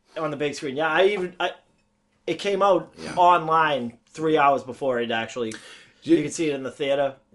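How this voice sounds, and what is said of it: Boston accent, misplaced R sounds. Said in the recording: “you're a Bostonian ... I don't say my R's in the right place, and then I just throw them somewhere they don't belong. ... The Boston accent does that.”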